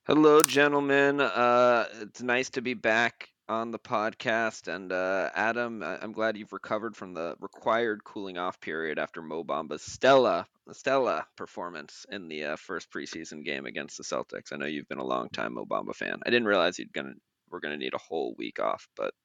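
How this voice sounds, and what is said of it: Boston accent. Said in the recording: “Quite the Boston accent there. You could run for mayor with that accent.”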